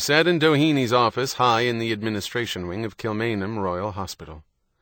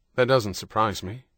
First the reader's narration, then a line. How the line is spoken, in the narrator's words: John said